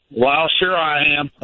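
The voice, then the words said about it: Put-on Southern twang. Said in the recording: “You got the twang.”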